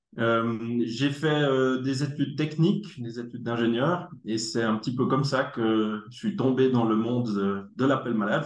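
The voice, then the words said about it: Swiss French Neuchâtel accent. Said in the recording (French): “j'ai un bel accent neuchâtelois”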